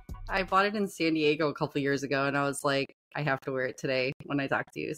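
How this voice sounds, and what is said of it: Midwestern American accent. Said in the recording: “What's your accent from, by the way? ... I smell a little Midwest on you.”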